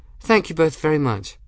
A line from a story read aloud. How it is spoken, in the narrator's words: She cheerfully and said